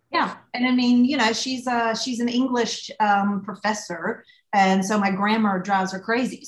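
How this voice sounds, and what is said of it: Thick Southern US accent. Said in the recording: “I'm Southern, but I don't sound like I'm from Texas and I don't sound like I'm from Charleston ... my accent got more thick ... your accent just gets heavier and heavier”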